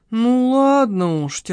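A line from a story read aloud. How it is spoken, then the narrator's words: Heavy sigh. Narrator (Russian): тяжко вздохнул Семен Исаевич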